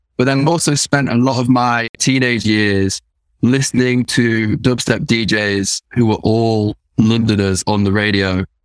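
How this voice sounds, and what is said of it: British accent with London twang. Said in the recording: “your accent was like sort of Cockney ... obviously you're British ... Nottingham accent ... middle class ... neutralizer ... there's a twang there”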